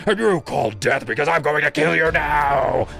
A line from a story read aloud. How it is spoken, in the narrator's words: he roared